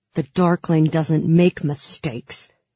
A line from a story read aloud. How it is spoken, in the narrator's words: he said through gritted teeth